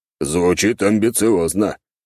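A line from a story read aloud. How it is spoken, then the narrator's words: Skeptical snort. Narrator (Russian): хмыкнул черноволосый здоровяк, считая это бредом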